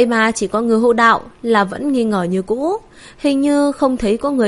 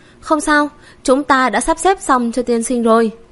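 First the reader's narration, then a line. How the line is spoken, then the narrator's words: Smiling. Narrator (Vietnamese): Trường quỹ mỉm cười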